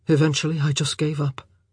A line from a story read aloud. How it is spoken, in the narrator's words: he said, his voice flat